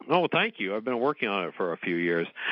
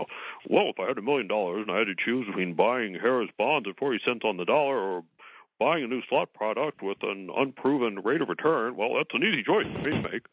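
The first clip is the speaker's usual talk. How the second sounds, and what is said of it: Impression of Gary Loveman. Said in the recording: “That's a good Loveman impersonation.”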